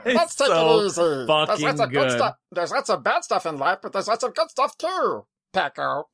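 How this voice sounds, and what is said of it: Imitates a character's voice. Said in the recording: “his Peco Peco impression”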